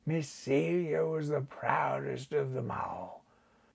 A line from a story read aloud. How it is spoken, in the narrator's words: the old man muttered